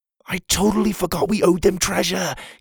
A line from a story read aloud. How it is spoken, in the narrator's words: he whispered